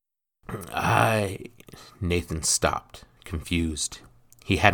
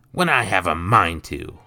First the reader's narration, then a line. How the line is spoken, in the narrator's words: Nathan snarled back